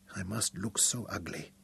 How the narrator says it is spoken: whispered through her swollen, black-scabbed lips

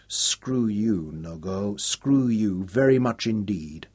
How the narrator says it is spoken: Nicholas smiled at him, murmuring

